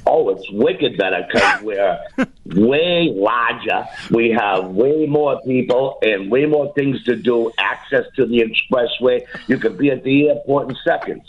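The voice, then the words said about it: Boston accent. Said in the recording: “they know that I'm an OG, originally from Boston, from Dorchester ... This is where the accent was originated, in Boston, in Dorchester.”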